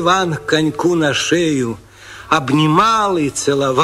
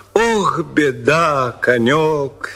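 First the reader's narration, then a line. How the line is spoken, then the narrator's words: Plain. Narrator (Russian): сказал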